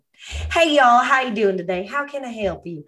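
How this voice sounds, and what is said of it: Put-on Southern American accent. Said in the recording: “I literally started greeting everybody with a Southern accent.”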